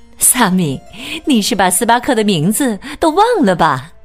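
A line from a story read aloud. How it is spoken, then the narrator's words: Joking. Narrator (Chinese): 萨米妈妈开玩笑的说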